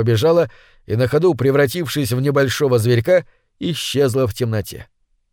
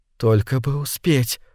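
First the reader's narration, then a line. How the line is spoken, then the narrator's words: Whisper. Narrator (Russian): шептала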